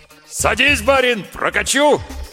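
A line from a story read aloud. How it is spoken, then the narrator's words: Dashing loud bark. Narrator (Russian): с неожиданной лихостью гаркнул извозчик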